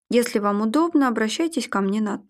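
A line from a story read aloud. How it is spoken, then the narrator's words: Matter-of-fact voice. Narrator (Russian): будничным голосом произнес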